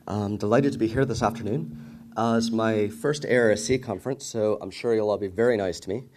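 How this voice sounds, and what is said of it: American accent. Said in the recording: “As you can probably tell by my accent, I'm not actually a native of Ireland. In fact, I used to live on 26th and O Street here in the district”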